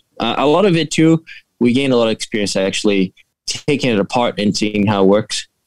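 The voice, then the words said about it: Foreign accent with some Boston dialect. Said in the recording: “I'm picking up an accent... there's part of it that's a little bit of a Boston dialect”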